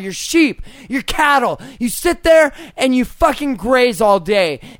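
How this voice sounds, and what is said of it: Yelling angrily. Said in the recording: “sorry for yelling.”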